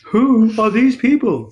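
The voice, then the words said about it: Imitates another person's voice. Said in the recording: “that's my Jerry Seinfeld imitation”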